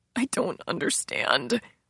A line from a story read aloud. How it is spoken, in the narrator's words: Gabriella said, her voice choked